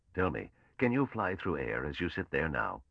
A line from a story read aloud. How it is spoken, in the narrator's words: Mallow said calmly